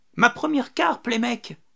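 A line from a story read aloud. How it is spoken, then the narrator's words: Happy exclamation. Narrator (French): s'exclama Rémy tout content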